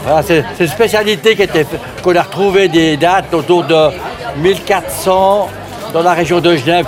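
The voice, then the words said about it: Regional French accent. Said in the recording (French): “c'est pour ça que vous avez un accent comme ça?”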